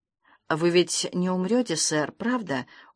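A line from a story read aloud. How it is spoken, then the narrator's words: Pleading mutter. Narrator (Russian): умоляюще пробормотал он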